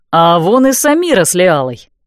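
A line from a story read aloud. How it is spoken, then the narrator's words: Exclaiming. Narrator (Russian): воскликнул Дан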